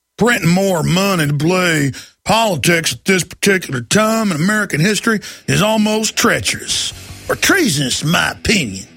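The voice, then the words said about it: Exaggerated Texas accent imitating Rick Perry. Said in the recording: “Let me get this extra Texas accent.”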